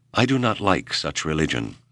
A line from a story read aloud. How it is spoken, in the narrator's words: Whipple said flatly